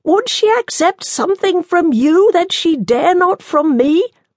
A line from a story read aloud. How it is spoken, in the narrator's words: Gamel shouted